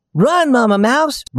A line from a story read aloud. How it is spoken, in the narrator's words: Raggedy Ann shouted